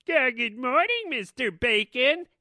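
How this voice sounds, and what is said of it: Bad imitation of another person's voice. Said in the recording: “two of the worst impressions ever... One was a bad impression because it was Pee-wee”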